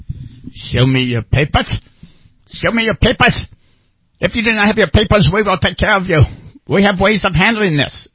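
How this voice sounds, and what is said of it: Put-on exaggerated foreign accent. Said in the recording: “Is that supposed to be a terrible German accent? ... Oh, no, that was my Irish.”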